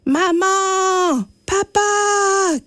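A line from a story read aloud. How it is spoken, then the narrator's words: Shouting. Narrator (French): crie Élie sans succès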